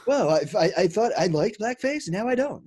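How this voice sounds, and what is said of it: Imitates another person's voice. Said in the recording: “That's a pretty good Fallon.”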